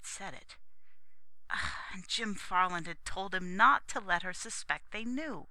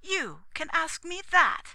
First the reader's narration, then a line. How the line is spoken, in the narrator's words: exclaimed